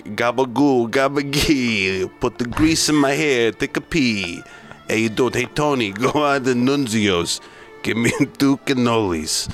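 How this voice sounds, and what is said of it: Put-on Italian-American gangster accent. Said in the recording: “impersonation ... look at every gangster movie. They're all like”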